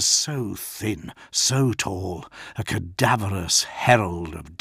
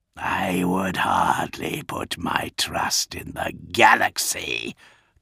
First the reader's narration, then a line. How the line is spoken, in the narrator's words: Kurz hissed